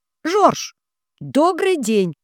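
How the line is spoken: Near-shouted greeting. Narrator (Russian): не пожалела дыхания и практически выкрикнула приветствие

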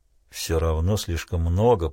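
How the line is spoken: Muttering. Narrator (Russian): пробормотал Крейг

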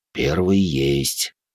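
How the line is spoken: Whispered under breath. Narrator (Russian): шепотом проговорил он себе под нос

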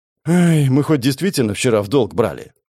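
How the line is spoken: Sighing. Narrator (Russian): вздохнул Шурик

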